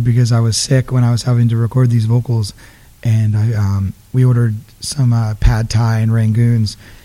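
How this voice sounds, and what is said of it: Raspy, husky voice. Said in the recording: “now you got kind of like that raspy phone sex thing going on.”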